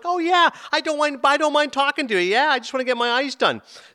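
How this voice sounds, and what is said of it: Midwestern twang like Frances McDormand. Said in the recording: “She's got a strong accent. Sounds a little bit like Frances McDormand in Fargo ... a little bit of that kind of Midwestern twang”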